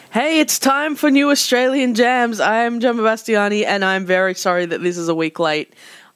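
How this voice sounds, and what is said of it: Sick-sounding voice. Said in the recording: “If you can't tell by my voice, I have been sick”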